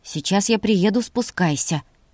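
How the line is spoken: Completely calm voice. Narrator (Russian): произнес совершенно спокойным голосом

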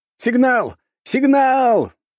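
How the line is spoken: Joyful sentries shouting. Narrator (Russian): кричали радостные дозорные

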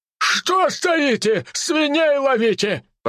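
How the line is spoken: Shouting. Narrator (Russian): прокричал тот

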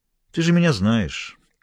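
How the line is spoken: Calm repetition. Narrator (Russian): повторила Лоретта спокойно

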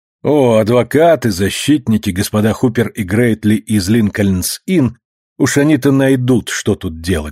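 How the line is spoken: Plain. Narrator (Russian): сказал он

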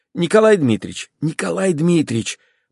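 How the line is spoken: Whisper. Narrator (Russian): прошептала опять Марья Николаевна

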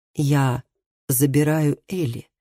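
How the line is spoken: Quiet. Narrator (Russian): тихо сказал Матиас

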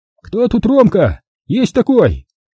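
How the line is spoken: Cheerful question. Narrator (Russian): весело спросила потная оскаленная рожа

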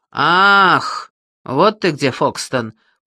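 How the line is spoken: Booming drone. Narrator (Russian): прогудел Грегори

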